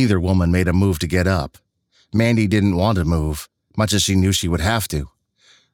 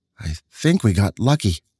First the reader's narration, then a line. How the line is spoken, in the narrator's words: she muttered